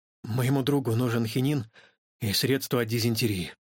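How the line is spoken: Gruff mutter. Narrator (Russian): буркнул он

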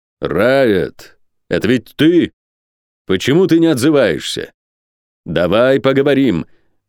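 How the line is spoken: Loud, calm, peaceable call. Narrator (Russian): Миролюбиво, громко, но спокойно позвал Орден

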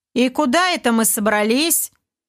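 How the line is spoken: Stern but unsure. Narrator (Russian): Голос комбинатора звучал довольно строго, но не вполне уверенно

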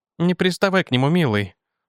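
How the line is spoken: Gentle affectionate. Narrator (Russian): ласково сказала Джейн

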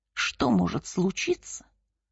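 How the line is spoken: Grumbled. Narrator (Russian): буркнул отец Павлин

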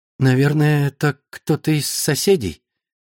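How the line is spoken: Uncertain. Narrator (Russian): Неуверенно проговорила Лора

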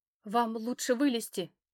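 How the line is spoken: Trembling young man's voice. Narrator (Russian): дрожащим голосом ответил парень

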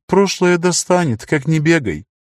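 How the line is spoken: Sighing. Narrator (Russian): Лар вздохнул

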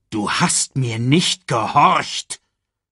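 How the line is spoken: Growled. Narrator (German): knurrte Mufasa

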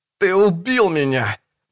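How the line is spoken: Groaning. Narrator (Russian): простонал Чельмсвуд

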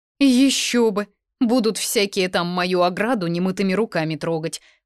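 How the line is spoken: Grumbling. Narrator (Russian): проворчал Альер

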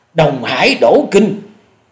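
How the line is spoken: Terrified cry. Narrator (Vietnamese): Hổ Điểu Thần Ma không dằn được khiếp hãi kêu lên

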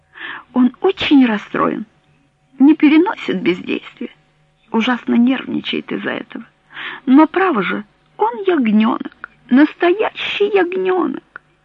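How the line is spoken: Holding back tears. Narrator (Russian): Она принялась было плакать, но сумела подавить рыдание и, обращаясь к Френ, сказала

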